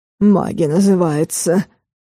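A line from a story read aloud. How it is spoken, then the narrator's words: Wounded wolf's gruff mutter. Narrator (Russian): буркнул зализывающий раны волчар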